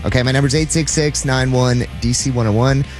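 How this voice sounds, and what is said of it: Reads number very fast. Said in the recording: “say it so fast?”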